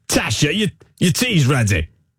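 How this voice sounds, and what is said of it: Put-on London accent. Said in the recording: “What, a London accent? ... You sound like you're from London. ... You sound like you're in EastEnders.”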